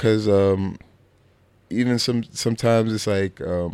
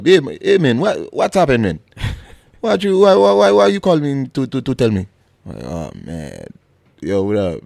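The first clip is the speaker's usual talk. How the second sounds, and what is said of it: Imitates another person's accented voice. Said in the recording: “he got the accent”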